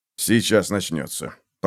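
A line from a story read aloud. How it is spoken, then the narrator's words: Mutter. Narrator (Russian): пробормотал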